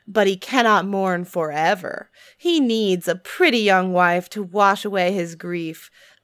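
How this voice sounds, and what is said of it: Sassy, gossipy, fast female character voice. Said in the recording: “your Miranda voice ... buxom, gravitas. Sassy, gossipy. ... fast ... voice”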